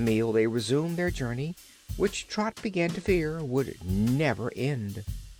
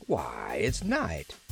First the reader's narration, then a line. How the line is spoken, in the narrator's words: he exclaimed